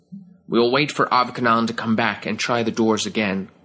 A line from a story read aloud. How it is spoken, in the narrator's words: Garkofan said